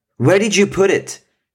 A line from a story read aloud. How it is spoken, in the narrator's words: Joe shouted